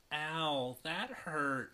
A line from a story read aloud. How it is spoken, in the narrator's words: she groans, still groggy from sleep